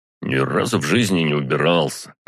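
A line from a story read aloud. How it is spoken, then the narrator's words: Grumbling. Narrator (Russian): проворчал тот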